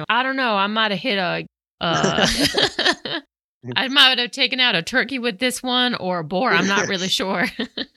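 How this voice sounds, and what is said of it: Weak put-on Southern accent. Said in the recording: “your Southern accent really needs some work”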